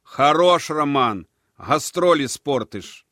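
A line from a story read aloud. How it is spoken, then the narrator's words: Shouted. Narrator (Russian): крикнул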